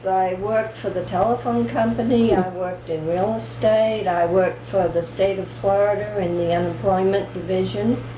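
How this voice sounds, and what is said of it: New England accent. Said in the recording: “such a wonderful New England accent ... I've never lost my accent ... people are always asking me if I'm from New England or Boston”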